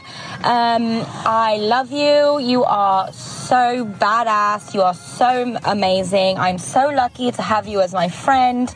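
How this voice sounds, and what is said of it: Vaguely English put-on accent. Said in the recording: “in an accent. I unfortunately can't do an Australian accent, so this one will have to do. It's kind of English, but kind of not”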